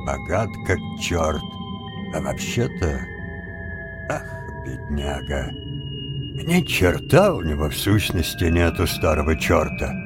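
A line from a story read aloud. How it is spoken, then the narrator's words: Muttering. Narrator (Russian): Джонни пробормотал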